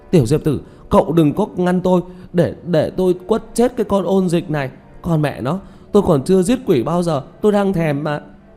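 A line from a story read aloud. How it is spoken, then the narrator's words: Furious loud yelling. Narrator (Vietnamese): Tiểu Mã vẫn còn chưa hết hận, la hét ầm ĩ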